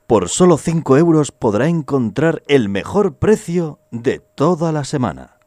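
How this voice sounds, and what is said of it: Advertising announcer voice. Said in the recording (Spanish): “poner una voz publicitaria ... es locutor de publicidad lo que tiene”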